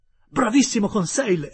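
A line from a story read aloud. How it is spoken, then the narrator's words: Exclamation. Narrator (Italian): esclamai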